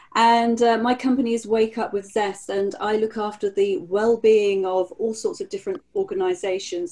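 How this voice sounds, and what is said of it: British accent. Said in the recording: “As you can tell from my accent, I'm based in the UK.”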